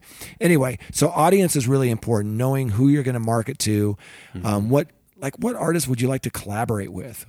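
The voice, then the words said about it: Strained, worn-out voice. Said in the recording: “I'm stumbling. I've lost my voice, you know, from this conference”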